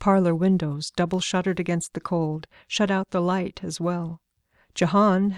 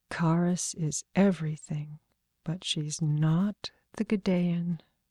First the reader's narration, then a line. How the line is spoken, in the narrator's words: Sanja said to his back, too softly for him to hear